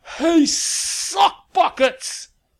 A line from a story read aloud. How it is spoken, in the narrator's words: Lavinia's voice bellowed behind her